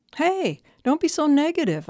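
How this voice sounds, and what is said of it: Fake upbeat positive voice. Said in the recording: “in my fake positive voice.”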